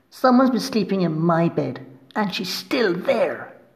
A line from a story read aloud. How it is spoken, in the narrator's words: exclaimed Baby Bear